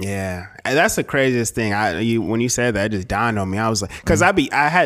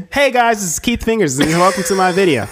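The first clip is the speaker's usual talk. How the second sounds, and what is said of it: Exaggerated YouTuber intro voice. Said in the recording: “Do that YouTube voice again ... This is a stupid ass accent”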